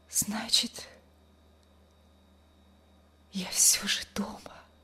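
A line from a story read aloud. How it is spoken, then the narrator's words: Weak whisper. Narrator (Russian): прошептала она слабым голосом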